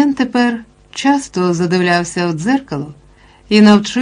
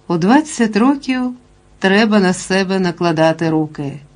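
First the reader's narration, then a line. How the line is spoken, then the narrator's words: Sad. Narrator (Ukrainian): сумно додавав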